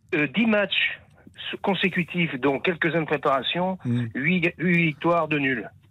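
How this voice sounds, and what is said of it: Slight Clermont-Ferrand regional accent. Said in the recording (French): “vous avez l'accent, un peu. L'accent de Clermont. ... cet accent, il est très particulier. L'accent de Lyon aussi, un peu. Aimé Jacquet avait un peu cet accent-là.”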